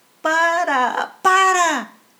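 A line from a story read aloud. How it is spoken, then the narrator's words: Shouting. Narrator (Spanish): gritaban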